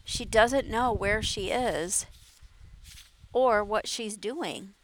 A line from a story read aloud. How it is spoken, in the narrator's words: Mara said softly